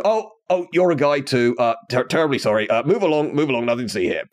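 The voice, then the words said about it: Put-on voice of an octopus. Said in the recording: “They may not actually sound like that. That is the official neon impersonation of a giant octopus having a conversation.”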